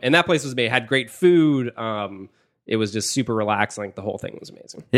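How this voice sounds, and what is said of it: Nasal, congested voice. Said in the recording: “my voice is a little nasally”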